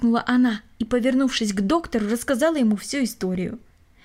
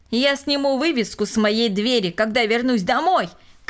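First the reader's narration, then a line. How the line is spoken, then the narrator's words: Shouted. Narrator (Russian): крикнул он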